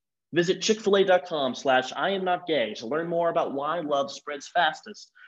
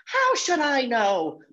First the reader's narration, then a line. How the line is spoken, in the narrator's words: Mom shouted back